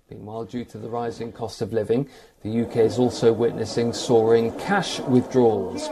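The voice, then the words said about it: Slow-speaking British accent. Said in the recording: “that slow speech pattern and that stupid inbred accent ... you're going to sound a lot like these British people”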